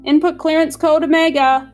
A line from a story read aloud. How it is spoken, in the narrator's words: snapped Medusa, as if nothing at all had happened